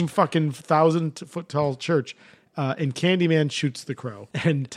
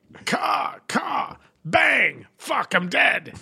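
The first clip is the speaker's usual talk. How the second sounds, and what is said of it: Imitates a movie villain's voice. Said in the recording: “That was a great imitation of Top Dollar.”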